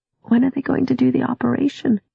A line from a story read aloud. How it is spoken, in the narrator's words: she had asked a little sleepily